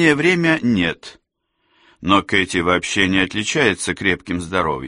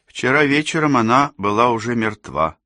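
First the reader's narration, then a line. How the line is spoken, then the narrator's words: Soft. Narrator (Russian): мягко проговорила Кэсси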